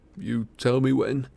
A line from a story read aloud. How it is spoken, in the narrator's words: he croaked